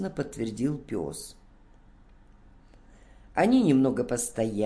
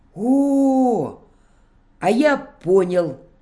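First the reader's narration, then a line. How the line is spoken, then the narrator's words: Sudden exclamation. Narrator (Russian): вдруг воскликнул Бобик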